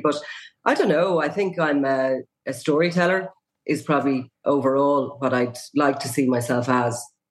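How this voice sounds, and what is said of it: Strained, partly lost voice. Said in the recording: “my voice is kind of slightly gone now here at the moment ... the voice is under pressure”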